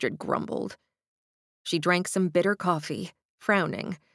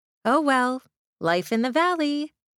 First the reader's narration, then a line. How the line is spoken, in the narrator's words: she smiled brightly